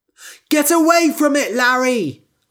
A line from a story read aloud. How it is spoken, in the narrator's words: shouted